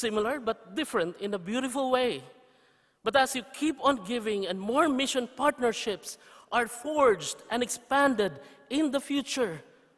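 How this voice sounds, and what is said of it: Filipino-accented English. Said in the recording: “present reports in English with bad Filipino, with bad English accent”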